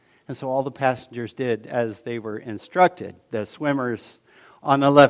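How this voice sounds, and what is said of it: Usual voice. Nothing is said of it.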